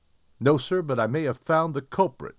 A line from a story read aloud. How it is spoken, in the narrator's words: I exclaimed